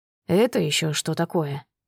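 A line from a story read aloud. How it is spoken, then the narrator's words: Surprised mutter. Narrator (Russian): удивленно пробормотал он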